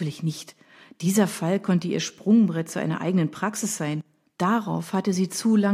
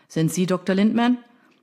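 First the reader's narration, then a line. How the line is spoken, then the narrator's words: Shouting over noisy crowd. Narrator (German): rief er ihrem tosenden Regen entgegen, um das Rufgewitter der Reporter zu übertönen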